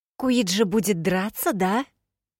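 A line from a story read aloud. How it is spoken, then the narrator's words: Loud whisper. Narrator (Russian): громко прошептала Тифида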